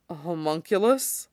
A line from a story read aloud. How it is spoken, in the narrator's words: Roy repeats faintly